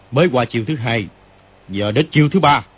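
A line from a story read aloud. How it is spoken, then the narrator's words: Shout. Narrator (Vietnamese): Kim Luân Pháp Dương quát lên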